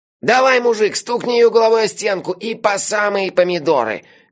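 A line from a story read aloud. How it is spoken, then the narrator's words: Nasal voice. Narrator (Russian): гнусаво произнес он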